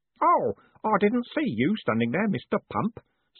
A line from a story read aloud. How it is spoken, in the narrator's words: said Stanley cheerfully